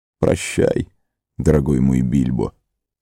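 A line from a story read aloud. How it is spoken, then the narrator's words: Quiet. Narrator (Russian): тихо проговорил он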